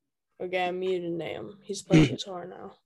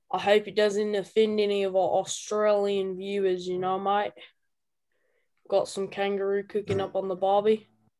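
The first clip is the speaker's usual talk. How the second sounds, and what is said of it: Put-on Australian accent. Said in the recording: “one of them I did an Australian accent, mate”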